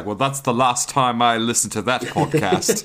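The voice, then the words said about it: Put-on British accent. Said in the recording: “I really like your British accent.”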